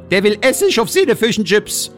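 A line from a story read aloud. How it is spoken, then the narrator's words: Saleswoman calling out. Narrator (German): rief die Verkäuferin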